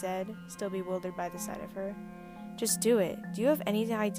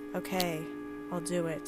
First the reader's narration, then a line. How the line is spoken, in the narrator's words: she said flatly